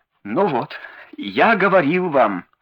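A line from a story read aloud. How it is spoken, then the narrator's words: Tearful exclamation, small man. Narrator (Russian): воскликнул плачущим голосом маленький человечек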